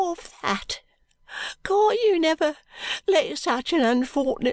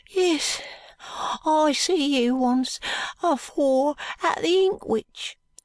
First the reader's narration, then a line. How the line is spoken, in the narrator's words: whimpers Joe